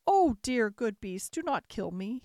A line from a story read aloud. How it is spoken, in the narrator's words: he cried